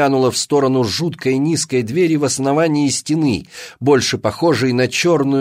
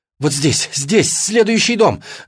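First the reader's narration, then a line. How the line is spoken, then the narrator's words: Shouted. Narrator (Russian): закричала Алина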